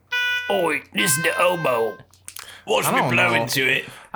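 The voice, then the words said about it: Put-on Cockney accent. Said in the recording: “I was really hoping he would have more of a Cockney accent.”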